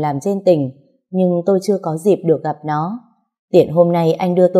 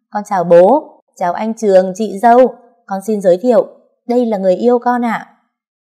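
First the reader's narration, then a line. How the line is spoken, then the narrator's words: Booming voice. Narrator (Vietnamese): Hiền giọng oang oang nói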